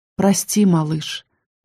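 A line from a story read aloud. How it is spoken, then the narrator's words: Quiet, gentle. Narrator (Russian): произнесла тихо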